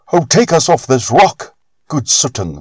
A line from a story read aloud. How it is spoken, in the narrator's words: they cried out to him